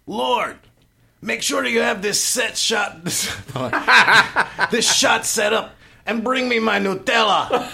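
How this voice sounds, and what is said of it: Imitates another person's voice. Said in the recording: “you can do an impression of Axel”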